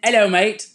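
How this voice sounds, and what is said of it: Attempted British accent sounding Australian. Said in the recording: “Let us hear your British accent ... That's Australian, love.”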